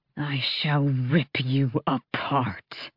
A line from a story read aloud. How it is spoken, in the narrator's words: hissed